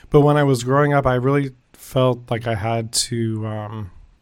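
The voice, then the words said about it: Voice keeps cutting out. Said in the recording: “I keep losing my voice.”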